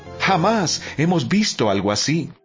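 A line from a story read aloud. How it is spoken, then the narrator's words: Amazed crowd exclaiming praise. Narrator (Spanish): Todos estaban asombrados y alababan a Dios exclamando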